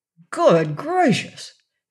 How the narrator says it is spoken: exclaimed Shaggy

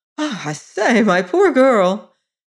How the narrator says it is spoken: She laughed hysterically

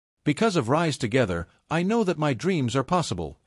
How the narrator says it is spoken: he said, his voice steady and sincere

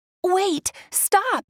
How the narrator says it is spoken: Ariel shouted

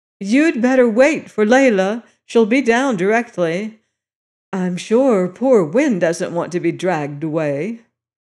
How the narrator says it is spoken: Elsie, still with the object of wounding, called out

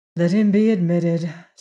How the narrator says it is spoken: said Juana with a sigh

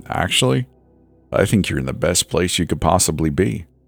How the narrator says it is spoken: the old man said with that same chuckle again

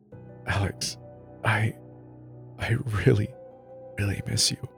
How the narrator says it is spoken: I whispered

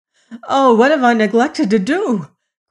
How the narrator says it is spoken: cried the prince, sick with fear

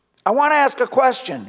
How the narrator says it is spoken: he shouted

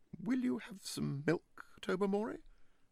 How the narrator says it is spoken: asked Lady Blemley, in a rather strained voice

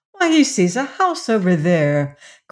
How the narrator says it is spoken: cried the little girl

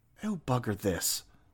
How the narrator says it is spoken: muttered Althea, sprinting

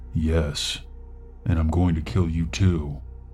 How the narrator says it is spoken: his voice went deep as he leaned forward and whispered into my ear

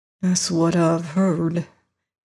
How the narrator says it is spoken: he muttered to himself

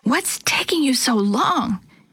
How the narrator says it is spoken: Chris hissed

